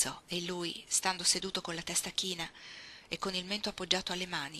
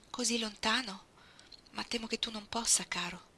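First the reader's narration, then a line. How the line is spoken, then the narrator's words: Woman's shaky voice. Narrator (Italian): disse lei con voce malferma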